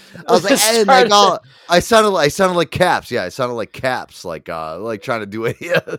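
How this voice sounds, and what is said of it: Usual voice. Nothing is said of it.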